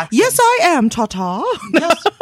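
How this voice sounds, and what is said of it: Weak put-on UK accent. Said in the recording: “I don't really do a good UK accent.”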